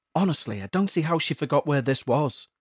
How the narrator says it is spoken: Roger muttered to himself

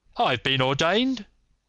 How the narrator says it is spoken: cried the old rascal

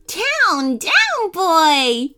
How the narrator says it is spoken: Teddy laughed

